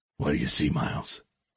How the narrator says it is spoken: X whispered

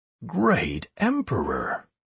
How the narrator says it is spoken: whispered the herald

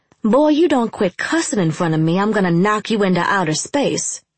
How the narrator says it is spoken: I snapped

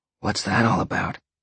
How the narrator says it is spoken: Sean asked in a whisper

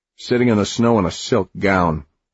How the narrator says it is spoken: he grumbled

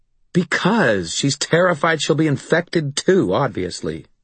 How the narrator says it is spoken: Maeve snapped

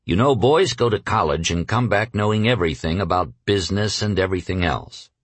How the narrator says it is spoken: Rockefeller was once heard to grumble

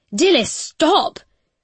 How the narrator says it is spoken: She shouts

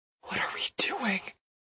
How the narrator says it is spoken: he whispers

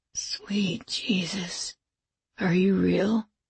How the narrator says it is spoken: whispered

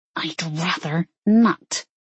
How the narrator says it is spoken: she hissed

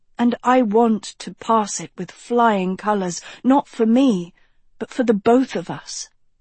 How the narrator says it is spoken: Agatha said earnestly

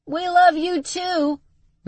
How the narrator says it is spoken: Max yelled back

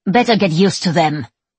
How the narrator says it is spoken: Sister Ignatia barks

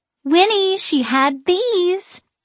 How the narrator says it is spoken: she exclaims

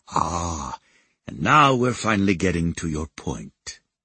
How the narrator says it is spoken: he murmured

